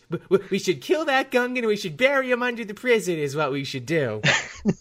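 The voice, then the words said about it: Imitates another person's voice. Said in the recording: “And that's how you do a Bill Burr impression, everyone ... you just get like this.”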